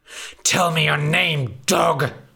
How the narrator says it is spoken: spat the big bad wolf

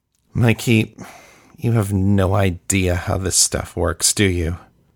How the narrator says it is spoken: Kayla asked wearily

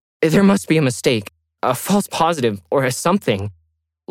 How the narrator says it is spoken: Lauren pleaded

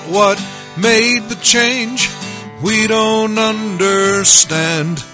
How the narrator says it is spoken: People cried out

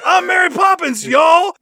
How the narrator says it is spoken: shouting out

